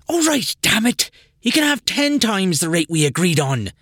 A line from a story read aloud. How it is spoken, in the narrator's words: Patricia sighed and yelled